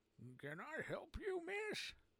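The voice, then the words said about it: Tired, fatigued old man's voice. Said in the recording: “he asked in a fatigued voice.”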